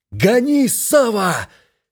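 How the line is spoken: Shouted. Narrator (Russian): Плато закричал мне

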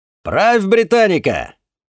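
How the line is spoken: Shouting. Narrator (Russian): крикнул я

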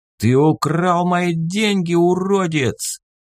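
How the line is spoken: Roaring. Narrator (Russian): взревел Эд

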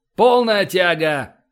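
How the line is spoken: Shout. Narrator (Russian): крикнул Эссекс

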